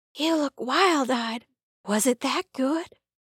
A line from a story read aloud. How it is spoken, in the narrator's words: Kaylee whispered